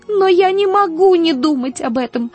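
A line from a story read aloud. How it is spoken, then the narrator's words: Sobbing. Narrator (Russian): зарыдала она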